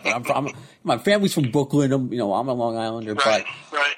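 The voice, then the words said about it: Long Island accent. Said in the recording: “I'm from Long Island, obviously. If you can't tell by my accent”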